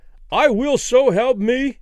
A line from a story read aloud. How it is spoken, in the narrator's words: Danny cried with abrupt conviction